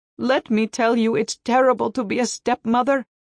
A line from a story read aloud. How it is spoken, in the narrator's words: she wailed